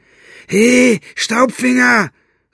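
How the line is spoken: Calling out. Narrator (German): rief Buster

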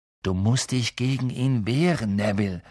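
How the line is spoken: Plain. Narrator (German): sagte Ron

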